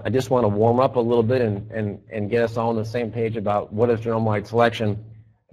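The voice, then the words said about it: Slightly hoarse, strained voice. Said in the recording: “I am also struggling with a little bit of laryngitis”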